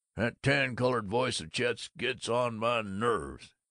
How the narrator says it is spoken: He grumbled to Stanley Graff

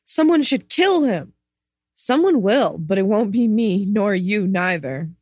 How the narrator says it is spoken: breathed

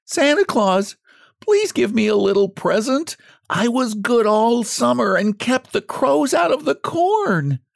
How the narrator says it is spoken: pleaded the poor scarecrow in his choking voice

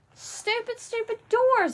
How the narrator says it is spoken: I hollered

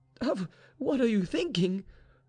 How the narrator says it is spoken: cried Vaninka

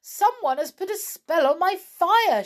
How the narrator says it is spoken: she cried

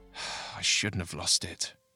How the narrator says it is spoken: he muttered

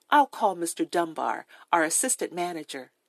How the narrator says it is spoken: She murmured

